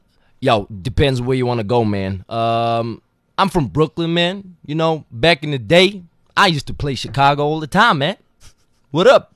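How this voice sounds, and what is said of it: Put-on American Brooklyn accent. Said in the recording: “So American accent.”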